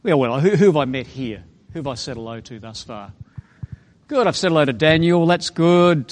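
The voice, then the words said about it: Australian accent. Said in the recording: “I'm from Australia. Can you tell that? Is the accent Australian?”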